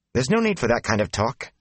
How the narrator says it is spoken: Nynaeve said sharply

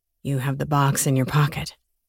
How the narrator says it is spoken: Grant whispered again

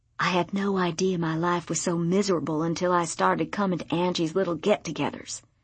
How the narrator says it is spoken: Becca whispered

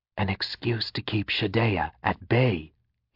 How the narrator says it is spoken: he whispered

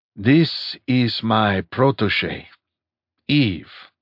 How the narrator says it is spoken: he said smoothly

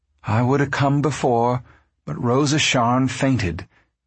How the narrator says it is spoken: she said

